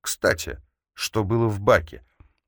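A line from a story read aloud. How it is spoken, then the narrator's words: Casual question. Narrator (Russian): поинтересовался он непринужденным тоном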